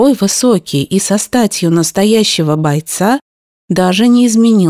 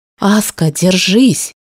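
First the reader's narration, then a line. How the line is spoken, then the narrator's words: Girl's whisper. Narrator (Russian): шепнула девушка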